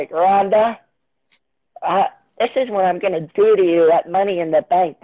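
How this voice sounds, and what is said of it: Imitates another person's voice. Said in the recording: “That's my Nia Jax impression.”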